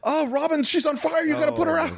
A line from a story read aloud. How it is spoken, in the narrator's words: Goldman yells